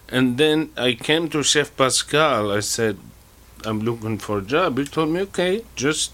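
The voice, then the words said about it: Foreign-accented English. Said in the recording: “Obviously, I detect an accent. ... I'm from Tunisia.”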